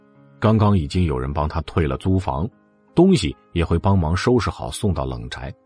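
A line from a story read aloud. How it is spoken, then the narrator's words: Flat, casual reminder. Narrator (Chinese): 淡淡的提醒了一句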